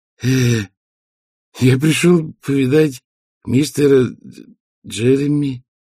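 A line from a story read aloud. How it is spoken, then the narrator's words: Strained forced words. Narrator (Russian): выдавил из себя доктор Хопкинс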